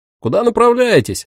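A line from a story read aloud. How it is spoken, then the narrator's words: Shouting. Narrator (Russian): крикнул один из них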